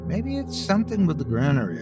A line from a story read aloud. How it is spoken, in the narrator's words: I mumbled